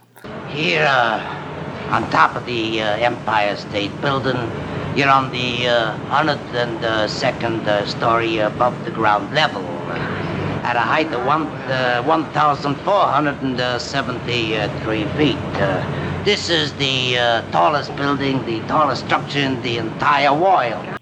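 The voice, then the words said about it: Classic New York accent. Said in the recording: “He has a very, like, classic New York accent.”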